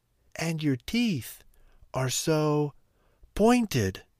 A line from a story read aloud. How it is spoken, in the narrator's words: gasped Little Red Riding Hood